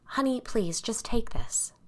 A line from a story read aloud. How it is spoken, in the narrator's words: she said quietly